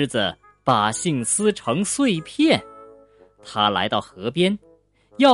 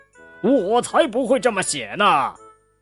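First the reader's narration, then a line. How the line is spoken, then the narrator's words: Lion roaring. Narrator (Chinese): 狮子大吼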